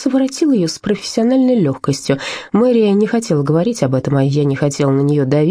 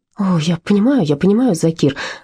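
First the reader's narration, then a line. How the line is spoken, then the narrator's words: Breathy exhale. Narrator (Russian): выдохнула она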